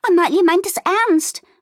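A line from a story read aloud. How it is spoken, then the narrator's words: Excited call. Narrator (German): rief Fiona aufgeregt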